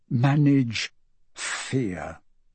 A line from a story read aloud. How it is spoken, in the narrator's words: murmuring